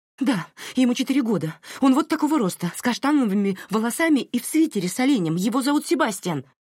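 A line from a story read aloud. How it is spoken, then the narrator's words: Rapid, breathless gabble. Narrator (Russian): Протараторила Марин на одном дыхании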